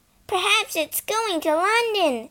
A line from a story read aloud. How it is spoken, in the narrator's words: Phyllis yelled